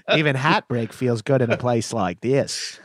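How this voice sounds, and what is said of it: Mock Australian accent. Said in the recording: “mocking an Aussie accent.”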